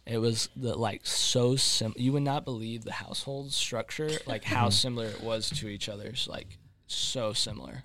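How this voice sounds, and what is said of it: Sarcastic tone. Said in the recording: “I'm being sarcastic ... Very, very sarcastic.”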